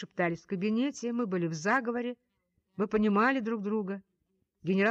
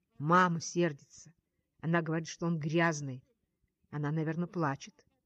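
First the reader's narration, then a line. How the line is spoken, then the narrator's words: Quiet. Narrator (Russian): тихо сказала я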